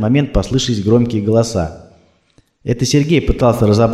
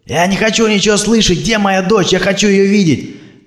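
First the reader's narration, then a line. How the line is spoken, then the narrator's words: Shouting. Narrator (Russian): кричал Сергей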